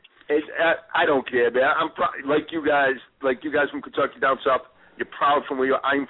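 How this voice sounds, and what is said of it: Northern US accent. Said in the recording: “that northern ... from up north ... He's got that accent ... I love your accent.”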